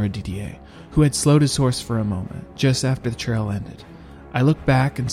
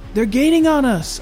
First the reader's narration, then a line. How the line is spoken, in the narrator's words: yelled